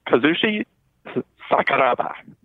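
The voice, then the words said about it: Put-on accent on a Japanese name. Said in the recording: “you went for an accent there. You went for the accent. ... Definitely not a Japanese accent.”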